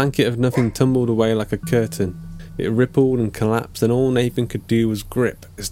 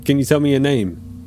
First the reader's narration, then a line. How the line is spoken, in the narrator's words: a voice said